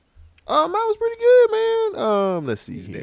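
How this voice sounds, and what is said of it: Unusually high-pitched voice. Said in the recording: “your voice got high”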